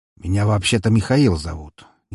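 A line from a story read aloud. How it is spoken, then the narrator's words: Slightly irritated. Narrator (Russian): немного раздраженно заявил он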